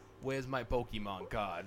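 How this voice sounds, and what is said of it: Mafia-style tough-guy accent. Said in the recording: “went full mafia ... You go in with like the accent too”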